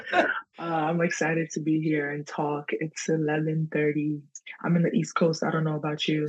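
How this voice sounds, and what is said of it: New York accent with Ghanaian tinge. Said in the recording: “New York accent is unmistakable ... It's like New York mixed with a little Ghanaian ... like African New York accent”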